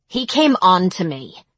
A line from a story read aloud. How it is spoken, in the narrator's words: she said angrily